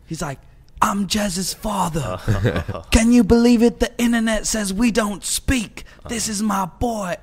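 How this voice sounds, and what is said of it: Poor put-on English accent. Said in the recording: “Terrible English accent.”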